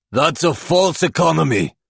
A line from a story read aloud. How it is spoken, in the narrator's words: Igor bellows